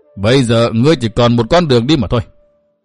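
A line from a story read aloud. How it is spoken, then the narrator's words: Cold, merciless. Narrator (Vietnamese): Hữu Cầu Tất Ứng lạnh lùng không dung tình chút nào hết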